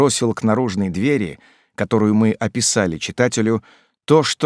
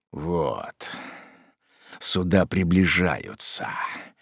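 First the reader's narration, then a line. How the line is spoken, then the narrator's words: Short man muttering. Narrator (Russian): пробормотал малорослый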